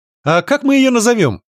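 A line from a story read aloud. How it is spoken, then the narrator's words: Cheerful question. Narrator (Russian): весело поинтересовалась Аня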